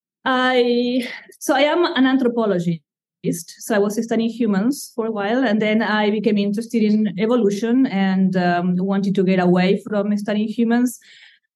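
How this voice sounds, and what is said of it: Slight Argentine accent. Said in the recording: “you have a slight accent ... I come from Argentina ... yet the accent has stayed with me”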